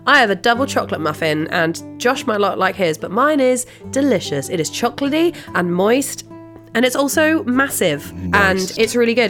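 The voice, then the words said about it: Slightly sick-sounding voice. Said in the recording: “I'm also a little bit poorly, so I apologise in advance if I sound sick”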